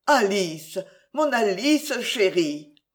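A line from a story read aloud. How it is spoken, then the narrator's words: Stammered. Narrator (French): balbutia-t-il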